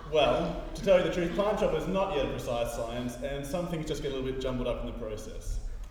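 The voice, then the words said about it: Australian accent. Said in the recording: “have an Australian accent”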